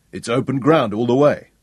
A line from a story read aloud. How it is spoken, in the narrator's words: Sean grunted